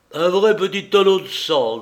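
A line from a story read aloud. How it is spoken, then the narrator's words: Grumbled. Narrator (French): grommela-t-il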